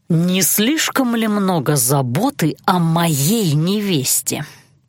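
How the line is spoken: Irritated grumble. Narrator (Russian): Раздраженно буркнул Алан

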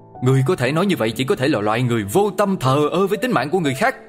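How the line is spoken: Angry father. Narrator (Vietnamese): Cha của cậu bé giận dữ

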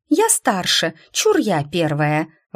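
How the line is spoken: Exclaimed. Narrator (Russian): воскликнула Дракайна

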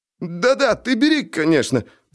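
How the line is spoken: Babbling. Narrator (Russian): пролепетал Жако

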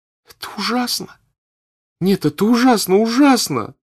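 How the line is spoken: Sobbing. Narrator (Russian): Вдруг заговорила Наташа и опять зарыдала

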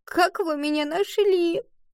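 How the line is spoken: Sobbing. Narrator (Russian): Рыдая

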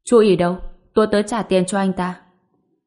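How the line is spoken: Cold. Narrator (Vietnamese): Ngô Bình lạnh lùng nói

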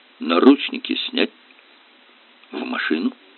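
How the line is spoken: Quiet command. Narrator (Russian): негромко скомандовал

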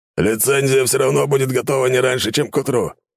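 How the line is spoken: Dry snort. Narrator (Russian): хмыкнул капитан Таранов

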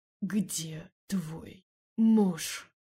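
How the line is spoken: Vampire's hiss in ear. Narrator (Russian): прошипел вампир на ухо

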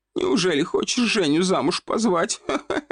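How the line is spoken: Loud laughter. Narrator (Russian): Захохотала та

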